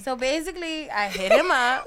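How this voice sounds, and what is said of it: Puts on an accent. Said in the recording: “Wait, where'd the accent come from?”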